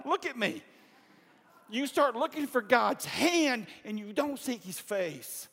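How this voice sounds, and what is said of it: Yelling preacher. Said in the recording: “That's why I'm yelling.”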